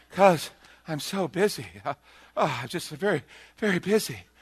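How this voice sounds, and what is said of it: Exaggerated breathless, winded voice. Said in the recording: “out of breath? ... Why are you winded all of a sudden?”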